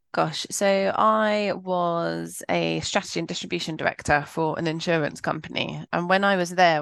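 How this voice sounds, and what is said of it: British accent. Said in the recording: “as you can hear from ... accent, she's not Australian. She's actually from the UK.”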